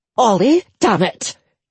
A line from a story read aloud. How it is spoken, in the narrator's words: Edith snapped